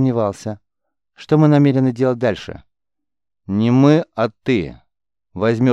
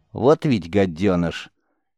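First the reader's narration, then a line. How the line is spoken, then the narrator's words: Grumbling. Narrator (Russian): ворчание Церы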